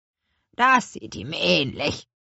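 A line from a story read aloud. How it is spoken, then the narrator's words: Old witch croaking. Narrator (German): krächzte die alte Hexe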